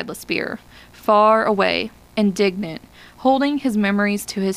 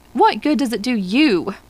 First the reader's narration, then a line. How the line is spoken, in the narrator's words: he cried to LaSpear